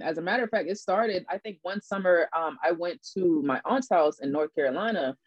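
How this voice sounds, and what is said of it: Charleston Geechee Gullah-influenced accent. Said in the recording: “people would always recognize my accent ... You got an accent, like you from the islands or something ... I'm from Charleston”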